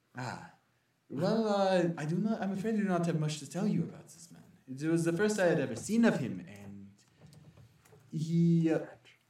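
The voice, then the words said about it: Weak pseudo-French character accent. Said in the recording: “The moon has a pseudo-French accent... I'm bad at accents, so it's close enough.”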